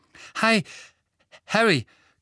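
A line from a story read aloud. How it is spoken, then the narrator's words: Panting. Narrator (German): keuchte er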